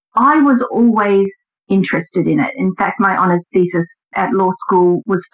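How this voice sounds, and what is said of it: Australian accent. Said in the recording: “I do have a more distinct accent than you, Alan, I believe. Mine's a little more southern than yours, as in the southern hemisphere. I do come from Australia originally.”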